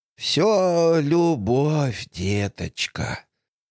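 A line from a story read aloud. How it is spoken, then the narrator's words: Grandmother's noisy sigh. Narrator (Russian): Бабушка Джейн шумно вздохнула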